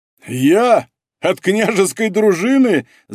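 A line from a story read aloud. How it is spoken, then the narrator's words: Laughing loudly, blind man. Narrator (Russian): захохотал слепой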